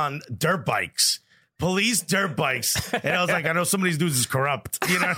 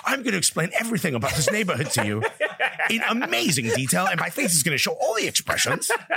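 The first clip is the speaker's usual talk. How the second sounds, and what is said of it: Good Ellie Menchen impression. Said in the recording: “That's a good Ellie Menchen impression.”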